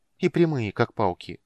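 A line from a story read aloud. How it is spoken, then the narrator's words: Sad. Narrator (Russian): грустно закончила Варана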